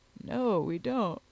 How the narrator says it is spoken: replied he, with a yawn

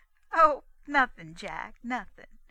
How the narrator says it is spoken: half cried, half laughed the girl

